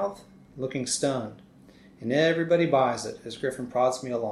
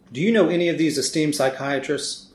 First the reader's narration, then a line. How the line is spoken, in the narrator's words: Griffin asks